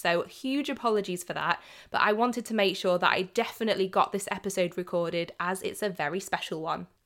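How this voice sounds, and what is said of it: Voice of someone feeling unwell. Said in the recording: “As you may be able to tell from my voice, I'm a little bit under the weather at the moment”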